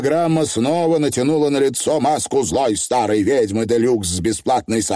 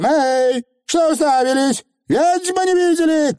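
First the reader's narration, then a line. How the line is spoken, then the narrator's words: Shouted. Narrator (Russian): крикнула она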